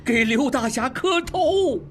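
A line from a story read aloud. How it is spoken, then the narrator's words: Shouting. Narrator (Chinese): 二当家的喊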